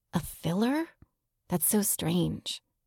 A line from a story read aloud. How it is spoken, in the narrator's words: Claire whispering